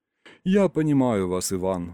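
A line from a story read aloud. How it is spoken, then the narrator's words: Sighing. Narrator (Russian): вздохнул Ринкус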